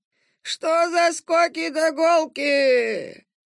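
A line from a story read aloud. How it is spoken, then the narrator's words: Creaky voice. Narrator (Russian): проскрипел он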